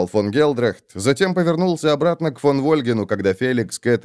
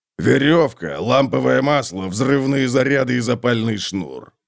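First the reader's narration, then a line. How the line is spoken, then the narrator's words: Grumbled. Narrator (Russian): проворчал Готрик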